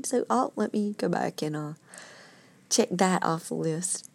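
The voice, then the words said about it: Southern accent. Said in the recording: “Southern accent”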